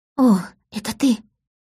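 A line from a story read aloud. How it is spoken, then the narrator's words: Whispered. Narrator (Russian): прошептала она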